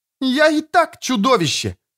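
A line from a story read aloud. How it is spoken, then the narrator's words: Shriek. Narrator (Russian): взвизгнула Эстер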